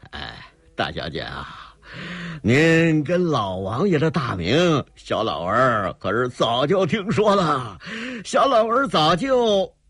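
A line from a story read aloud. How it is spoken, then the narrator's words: Giggling. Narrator (Chinese): 那个费老头嘻嘻一笑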